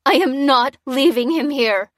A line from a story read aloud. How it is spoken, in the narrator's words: cried the woman, channeling her distress and anger